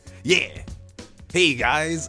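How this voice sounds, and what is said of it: Higher-pitched, enthusiastic character voice. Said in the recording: “David is probably going to be a little bit up here. He's going to sound higher than me, but he's going to drive, like, be really enthusiastic all the time. He's excited.”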